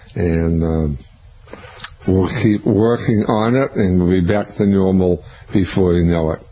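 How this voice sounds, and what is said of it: Weak, strained voice. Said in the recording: “I apologize for my voice... my voice is still a little bit weak, but getting stronger every day... the tone of it”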